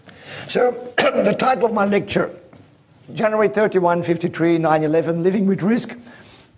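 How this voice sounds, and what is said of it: Strained, failing voice. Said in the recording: “my voice is a bit going”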